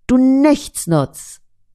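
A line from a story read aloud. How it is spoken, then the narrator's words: Angry boy shouting. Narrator (German): Verärgert schreit der Junge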